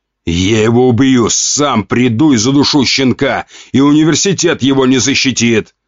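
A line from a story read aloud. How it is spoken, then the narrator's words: Growling. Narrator (Russian): прорычал князь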